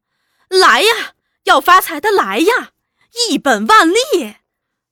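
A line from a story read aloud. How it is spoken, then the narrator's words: Shouting. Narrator (Chinese): 喊一阵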